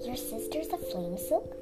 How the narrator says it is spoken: She whispered in her own voice

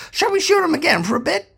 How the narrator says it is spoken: One cop shouted to the other

